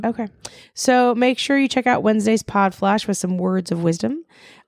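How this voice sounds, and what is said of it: Slightly raspy voice. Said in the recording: “My voice is a little raspy today because I was singing so loudly last night.”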